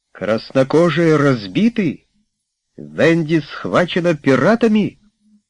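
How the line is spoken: Exclaiming. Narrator (Russian): воскликнул Питер

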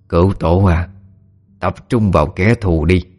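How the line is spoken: Hoarse voice. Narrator (Vietnamese): từ cánh tay của Hạ vọng ra một giọng nói khàn khàn

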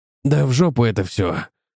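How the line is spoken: Growl. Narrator (Russian): прорычал Паретти

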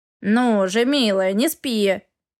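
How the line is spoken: Irritated grumble. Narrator (Russian): раздраженно проворчал Эгра

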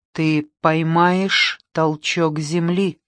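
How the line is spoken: Whisper into ear. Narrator (Russian): прошептал мне в одно ухо Дон Хуан

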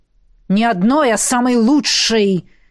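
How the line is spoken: Almost roaring. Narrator (Russian): Чуть ли не взревел

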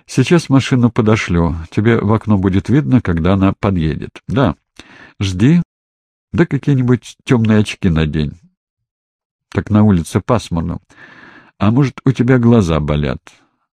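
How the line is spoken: Plain. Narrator (Russian): Спросил у Малгожаты

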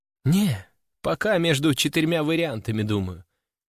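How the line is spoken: Sighing. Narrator (Russian): вздохнула Катюша

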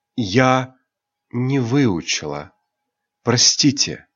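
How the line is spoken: Sudden quiet. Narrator (Russian): Девушка набрала полные легкие воздуха и вдруг тихо произнесла

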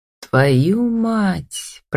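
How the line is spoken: Hoarse rasp. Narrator (Russian): прохрипел Роман

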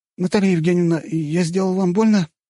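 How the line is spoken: Squeaky young man's voice. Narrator (Russian): пискнул молоденький паренек

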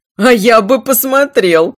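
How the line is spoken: Loud laughing. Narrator (Russian): захохотала Мерис

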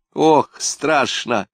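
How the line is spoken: Laughing, muffled against shoulder. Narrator (Russian): смеясь и все теснее прижимаясь лицом к его плечу, ответила она

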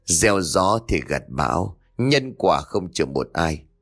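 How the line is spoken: Sighing mutter. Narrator (Vietnamese): Bà thở dài một tiếng rồi lẩm bẩm

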